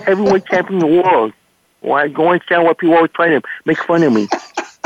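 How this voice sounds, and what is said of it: Mike Tyson impression. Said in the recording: “Do Mike Tyson. Please do Mike Tyson.”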